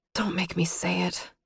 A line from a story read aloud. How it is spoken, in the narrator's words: I whispered miserably